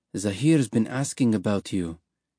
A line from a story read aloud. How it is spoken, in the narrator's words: he said quietly